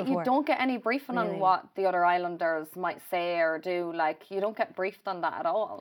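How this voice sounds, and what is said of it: Irish accent. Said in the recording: “you were an Irish girl. We could tell from your accent”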